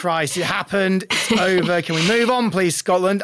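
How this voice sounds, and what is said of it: Exaggerated offensive put-on accent. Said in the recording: “that's the most offensive accent I could have possibly imagined”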